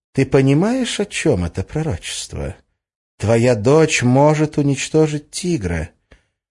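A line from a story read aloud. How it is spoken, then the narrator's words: Insinuating, silky. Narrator (Russian): вкрадчиво произнесла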